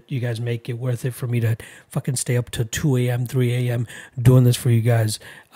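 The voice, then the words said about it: Tired-sounding voice. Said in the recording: “I'm sure you can hear the tiredness in my voice”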